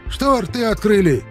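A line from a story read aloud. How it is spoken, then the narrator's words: Barked. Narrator (Russian): гаркнул Шипко детдомовцам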